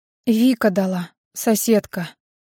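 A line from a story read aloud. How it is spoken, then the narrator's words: Quiet whisper. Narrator (Russian): тихо шепчет она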